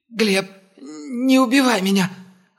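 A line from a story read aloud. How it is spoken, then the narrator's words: Hoarse pleading. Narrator (Russian): хрипло взмолился Упырь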